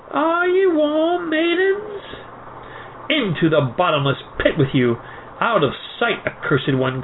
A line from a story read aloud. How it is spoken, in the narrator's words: cried the girls